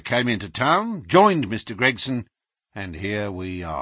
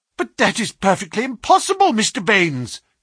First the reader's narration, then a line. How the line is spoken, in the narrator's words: cried our client